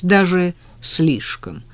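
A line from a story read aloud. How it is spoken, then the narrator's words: Insincere snort. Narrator (Russian): хмыкнул Женя, хотя совсем так не думал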